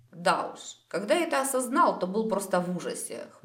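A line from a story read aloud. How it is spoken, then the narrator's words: Wry snort. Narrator (Russian): хмыкнул Дарин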